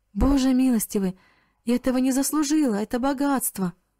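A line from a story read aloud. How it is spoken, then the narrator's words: Startled, frightened exclamation. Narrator (Russian): Мариана от удивления и испуга воскликнула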